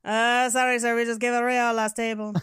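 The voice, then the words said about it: Bad put-on Italian accent. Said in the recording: “doing a bad Italian accent”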